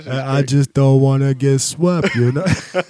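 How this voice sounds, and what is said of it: Imitates another person's accent. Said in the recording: “his accent is the worst, too.”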